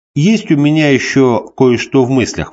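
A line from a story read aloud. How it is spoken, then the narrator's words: Plain. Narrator (Russian): спросил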